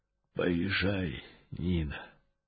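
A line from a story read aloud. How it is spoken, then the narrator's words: Faint rustling old voice. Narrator (Russian): прошелестел еле слышно старческий голос из-за занавески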